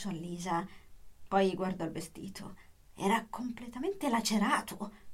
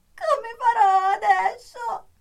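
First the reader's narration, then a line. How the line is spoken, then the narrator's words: Sobbing. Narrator (Italian): singhiozzava Sara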